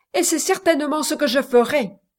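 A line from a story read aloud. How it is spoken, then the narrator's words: Retort with concentrated anger. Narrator (French): répliqua le Richard d'un ton de colère concentré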